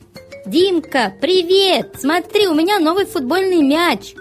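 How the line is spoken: Excited shout. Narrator (Russian): закричал друг Петя

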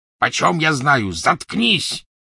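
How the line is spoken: Rough bark. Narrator (Russian): рявкнул грубый голос

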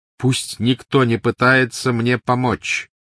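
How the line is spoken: Loud. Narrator (Russian): громко сказал Гарри

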